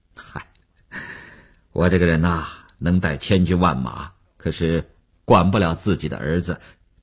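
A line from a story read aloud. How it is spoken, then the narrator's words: Wry, self-mocking, awkward. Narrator (Chinese): 吴长天也笑了笑，几分安慰，几分尴尬，自嘲地说道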